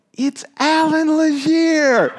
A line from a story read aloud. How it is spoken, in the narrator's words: they yelled